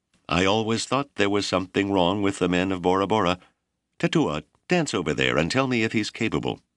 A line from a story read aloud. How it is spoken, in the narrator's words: the leading heckler shouted